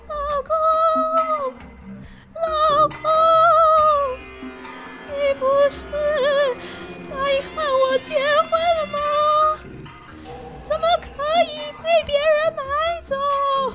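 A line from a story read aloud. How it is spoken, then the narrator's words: Shrill wailing. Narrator (Chinese): 那女鬼凄厉的哭喊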